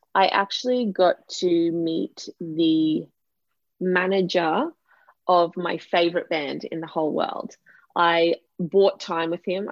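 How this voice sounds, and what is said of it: Australian accent. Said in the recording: “for those who haven't picked up on the accent, I am in Australia”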